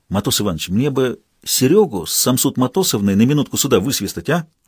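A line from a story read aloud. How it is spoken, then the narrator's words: Whispered request. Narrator (Russian): шепотом просил Толян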